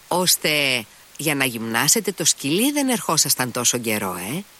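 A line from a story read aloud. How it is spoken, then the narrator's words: Reproachful exclamation. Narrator (Greek): αναφώνησε ο Αλιώσα και στη φωνή του διακρίνονταν ένας τόνος επίπληξης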